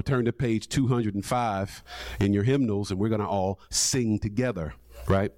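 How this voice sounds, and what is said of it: Attempted Southern gospel preacher accent. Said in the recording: “I'm trying to do my best Southern gospel accent. It ain't working this morning.”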